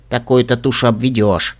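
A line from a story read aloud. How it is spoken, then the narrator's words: Thoughtless muttering aloud. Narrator (Russian): пробормотала я вслух, не подумав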